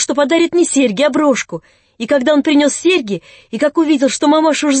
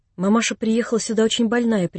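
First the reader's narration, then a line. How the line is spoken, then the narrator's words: Quiet. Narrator (Russian): прибавила Нелли тихим голосом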